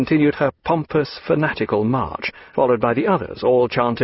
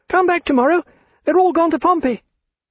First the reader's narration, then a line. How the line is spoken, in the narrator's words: Charlotte cried